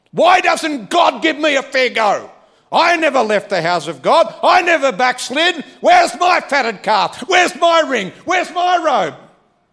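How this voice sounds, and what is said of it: Raised, loud voice. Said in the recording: “I'm raising my voice.”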